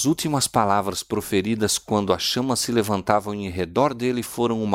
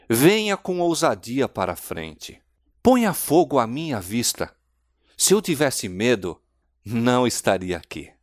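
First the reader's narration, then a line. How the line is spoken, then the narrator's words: Exclamation. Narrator (Portuguese): o mártir exclamou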